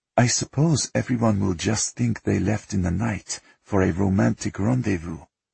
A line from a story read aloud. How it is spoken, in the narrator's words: Nikolai said quietly